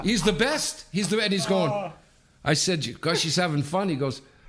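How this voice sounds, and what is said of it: Usual voice. Nothing is said of it.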